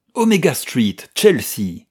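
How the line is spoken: Shouted. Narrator (French): cria-t-il au cocher

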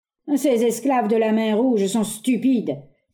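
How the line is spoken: Angry table-pounding exclamation. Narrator (French): s'écria en frappant la table du poing

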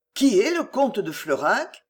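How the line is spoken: Low-voiced question. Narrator (French): s'enquit le peintre à voix basse

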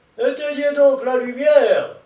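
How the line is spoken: Shout. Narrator (French): criait-il

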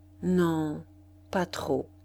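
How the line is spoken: Slow reply. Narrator (French): Madame Duroy répondit lentement

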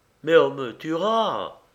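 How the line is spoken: Poor man exclaiming. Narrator (French): s'écria le pauvre diable

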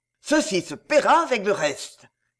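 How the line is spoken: Growled. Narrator (French): gronda-t-il

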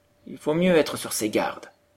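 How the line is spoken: Plain reply. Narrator (French): répondit M

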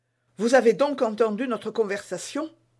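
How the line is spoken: Quick, anxious question. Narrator (French): demanda vivement madame Bonacieux avec inquiétude

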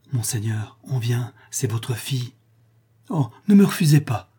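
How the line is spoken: Moved, pleading voice. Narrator (French): reprit Rodolphe, d'une voix émue et suppliante

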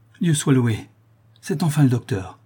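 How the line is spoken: Exclaimed. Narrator (French): s'écrie Barbara

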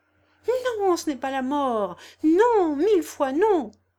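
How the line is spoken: Impetuous exclamation. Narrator (French): s'écria Albert en se soulevant impétueusement

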